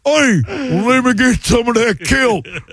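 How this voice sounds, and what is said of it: Comic redneck fish character voice. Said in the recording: “That's my impression of a fish”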